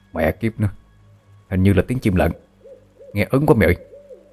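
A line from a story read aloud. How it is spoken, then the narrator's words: Frightened young man whispering. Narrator (Vietnamese): một trong hai gã thanh niên thì thào với nhau đầy sợ hãi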